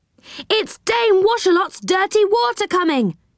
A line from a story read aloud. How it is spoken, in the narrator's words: yelled Joe